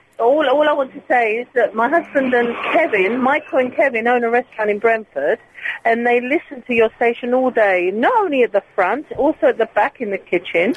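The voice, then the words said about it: Greek accent. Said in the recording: “I do have a Greek accent, I've been told.”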